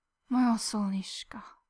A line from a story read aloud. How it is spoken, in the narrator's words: Victor sighs out when they break apart, a smile growing on his face